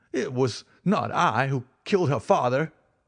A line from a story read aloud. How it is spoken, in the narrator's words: he cried